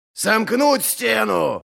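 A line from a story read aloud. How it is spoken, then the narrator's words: Growled. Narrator (Russian): прорычал Ральф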